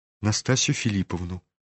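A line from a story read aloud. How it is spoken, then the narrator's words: Mumbled. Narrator (Russian): пробормотал князь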